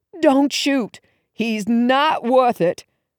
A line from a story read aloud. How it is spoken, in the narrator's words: shouted